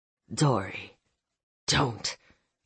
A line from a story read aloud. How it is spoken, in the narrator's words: growled, my voice low